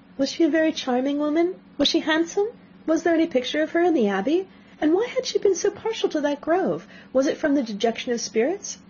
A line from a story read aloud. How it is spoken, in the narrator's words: eagerly poured forth